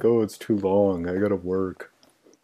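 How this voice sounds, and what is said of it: Imitates another person's voice. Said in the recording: “that's my impression of you, by the way. That's what you sound like.”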